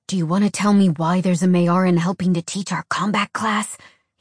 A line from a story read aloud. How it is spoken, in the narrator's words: he whispered, after making sure the others were a safe distance away